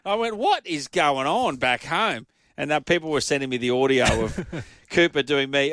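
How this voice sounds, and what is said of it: Queensland Australian accent. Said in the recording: “I have a very people call it a Queensland accent ... I know that I've got a bit of a Queensland sound”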